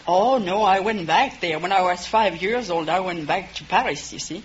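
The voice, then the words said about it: French accent. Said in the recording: “judging from your accent ... you must have remained in France ... You just didn't get an accent from spending 2 weeks in France”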